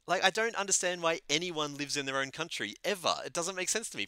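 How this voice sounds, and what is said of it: Australian accent. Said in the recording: “I'm this like foreigner with an accent ... Why would I ever stay in Australia?”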